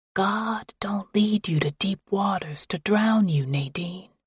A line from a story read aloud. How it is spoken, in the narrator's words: would whisper